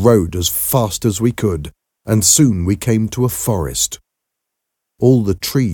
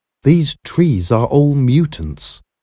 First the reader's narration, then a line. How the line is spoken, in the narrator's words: said Rosalind